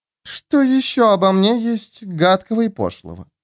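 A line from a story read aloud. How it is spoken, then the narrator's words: Honeyed purr. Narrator (Russian): медово мурлыкнула леди Сибил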